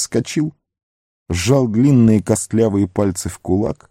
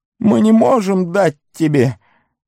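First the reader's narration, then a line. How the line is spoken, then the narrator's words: Pleading. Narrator (Russian): взмолился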